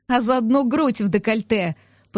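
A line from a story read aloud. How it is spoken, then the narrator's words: Teasing laugh. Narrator (Russian): посмеялась я, подначивая подругу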